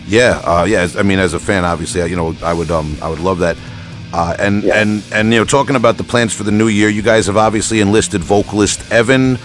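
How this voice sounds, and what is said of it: Long Island New York accent. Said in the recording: “my Long Island accent ... hard for me to pronounce in my Long Island accent”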